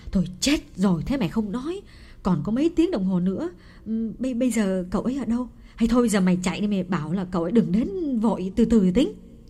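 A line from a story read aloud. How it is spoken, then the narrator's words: Mother crying out in alarm. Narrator (Vietnamese): Bà mẹ Phượng kêu lên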